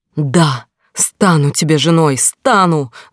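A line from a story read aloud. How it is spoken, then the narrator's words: Screamed with full force. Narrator (Russian): заорала изо всех сил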